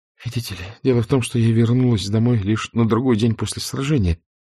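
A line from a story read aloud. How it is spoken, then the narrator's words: Hurried explanation. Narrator (Russian): торопливо начала объяснять Скарлетт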